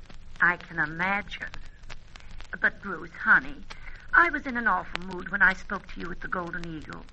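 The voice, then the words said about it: Charming American accent. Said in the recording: “the charming American accent”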